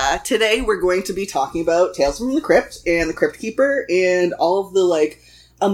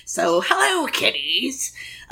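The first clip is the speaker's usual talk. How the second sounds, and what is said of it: Crypt Keeper horror host voice. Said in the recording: “my Crypt Keeper voice ... It's not great.”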